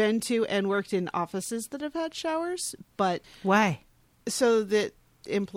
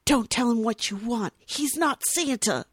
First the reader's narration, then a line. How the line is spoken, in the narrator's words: Buddy hisses at the kid